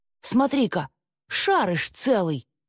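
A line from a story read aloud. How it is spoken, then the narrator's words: Exclamation. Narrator (Russian): воскликнул Руслан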